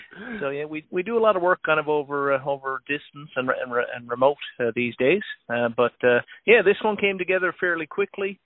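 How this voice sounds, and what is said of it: Newfoundland accent. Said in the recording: “I am from Newfoundland originally. I have a little bit of an accent. I can't hide it”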